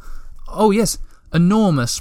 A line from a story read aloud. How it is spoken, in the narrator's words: Moomin Troll continued nervously